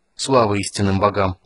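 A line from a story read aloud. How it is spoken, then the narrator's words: Exhausted sigh. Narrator (Russian): вздохнул Танис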